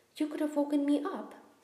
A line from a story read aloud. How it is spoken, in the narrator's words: said Ron crossly